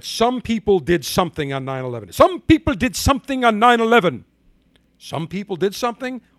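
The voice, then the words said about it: Ilhan Omar impression, accent too Indian. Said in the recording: “my Ilhan Omar impression ... Now that's too Indian ... I had a good impression”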